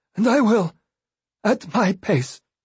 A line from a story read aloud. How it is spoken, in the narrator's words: he said hoarsely